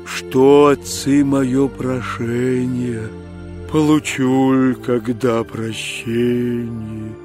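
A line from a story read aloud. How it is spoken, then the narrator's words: Sighing whale. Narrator (Russian): Чудо-юдо, рыба-кит, так вздохнувши, говорит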